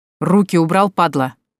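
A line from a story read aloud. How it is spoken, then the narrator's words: Loud bark close by. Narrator (Russian): гаркнул где-то совсем рядом знакомый голос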